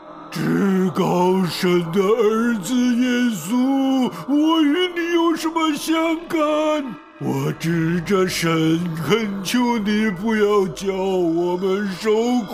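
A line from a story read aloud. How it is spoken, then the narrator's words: Loud crying out. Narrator (Chinese): 那人大声呼叫说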